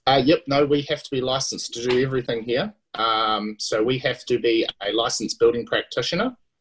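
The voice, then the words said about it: New Zealand accent. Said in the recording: “You're in New Zealand, for everybody who can't tell from his wonderful accent”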